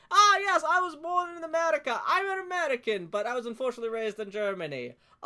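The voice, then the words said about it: Put-on German accent. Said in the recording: “he has a German accent ... evil accent”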